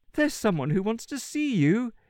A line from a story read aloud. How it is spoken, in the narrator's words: she said, chuckling